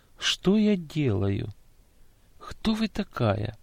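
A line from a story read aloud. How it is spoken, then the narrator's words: Dazed whisper. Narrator (Russian): она вдруг, как будто проснувшись, тихо прошептала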